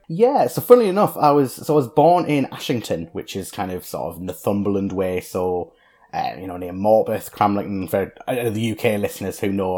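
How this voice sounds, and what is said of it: Northeast England accent. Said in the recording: “your accent. You're very clearly a northeast of England guy.”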